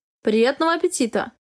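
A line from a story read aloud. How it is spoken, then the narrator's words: Calm. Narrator (Russian): Спокойно сказал Хартман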